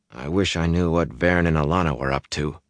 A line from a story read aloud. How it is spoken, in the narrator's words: he muttered